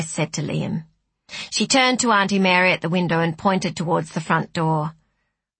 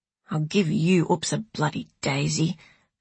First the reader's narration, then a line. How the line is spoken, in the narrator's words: muttered Lucy